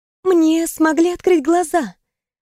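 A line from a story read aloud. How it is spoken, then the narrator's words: Timid, smiling. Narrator (Russian): робко улыбнулась она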